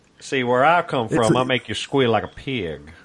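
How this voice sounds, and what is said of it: Put-on Alabama accent. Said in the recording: “my Alabama voice ... how do you know that's from Alabama?”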